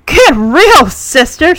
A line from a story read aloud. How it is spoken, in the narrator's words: Sister Bernadette scoffs